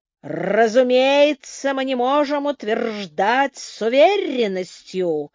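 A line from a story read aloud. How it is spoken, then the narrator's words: Menacing growl. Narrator (Russian): устрашающе прорычал доктор Сорли Макферсон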